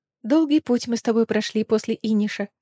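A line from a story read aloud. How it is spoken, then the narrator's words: Whisper. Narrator (Russian): прошептала Ириана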